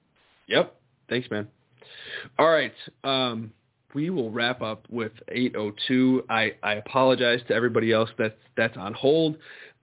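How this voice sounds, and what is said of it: Strained, worn-out voice. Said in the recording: “my voice just cannot hold up too much longer”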